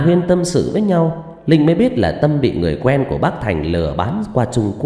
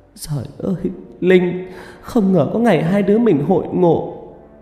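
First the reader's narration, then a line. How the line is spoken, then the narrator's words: Emotional sobbing. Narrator (Vietnamese): Vẻ xúc động dâng lên trong khóe mắt, Tâm nức nở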